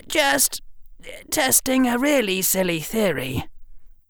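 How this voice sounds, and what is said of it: Strangled, tight voice. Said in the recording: “in a strangled voice”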